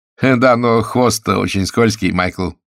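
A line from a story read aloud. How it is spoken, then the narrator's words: Laughing. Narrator (Russian): засмеялся изобретатель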